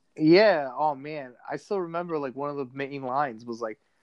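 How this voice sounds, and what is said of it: Usual voice. Nothing is said of it.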